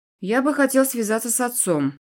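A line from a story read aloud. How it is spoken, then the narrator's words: Grim. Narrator (Russian): мрачно ответил ей Эдвин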